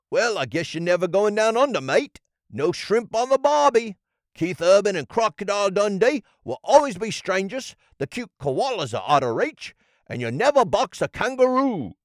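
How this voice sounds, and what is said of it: Bad put-on Australian accent. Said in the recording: “really bad Australian accent”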